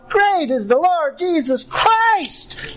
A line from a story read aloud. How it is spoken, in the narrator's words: to shout